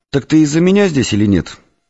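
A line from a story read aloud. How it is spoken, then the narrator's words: Sharp question. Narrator (Russian): резко спросил Егор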